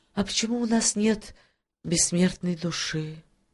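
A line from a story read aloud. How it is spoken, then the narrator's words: Sad, mermaid speaking. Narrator (Russian): грустно проговорила русалочка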